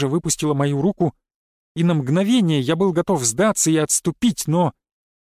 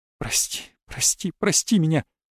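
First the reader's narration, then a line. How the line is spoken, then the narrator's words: Breathless, breaking voice. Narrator (Russian): Выдохнула она срывающимся голосом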